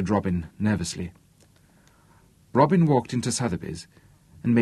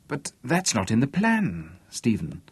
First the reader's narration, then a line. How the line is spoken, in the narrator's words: stammered Robin